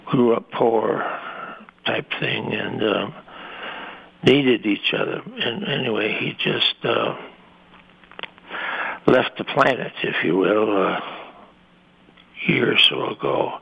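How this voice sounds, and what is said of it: Choked-up emotional voice. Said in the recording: “I'm getting choked up a little bit here”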